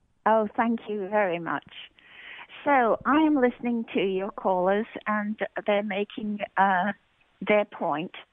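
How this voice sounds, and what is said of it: Delightful accent. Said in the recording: “you person with a delightful accent.”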